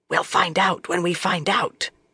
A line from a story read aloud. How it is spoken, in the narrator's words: Swan whispered